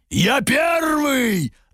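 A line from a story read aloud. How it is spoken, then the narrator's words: Roaring barks, several voices. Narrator (Russian): рявкнули три драконьи глотки и людоед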